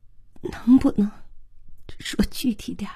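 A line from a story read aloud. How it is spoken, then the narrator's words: Trembling question. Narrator (Chinese): 慧娟声音颤悠悠地问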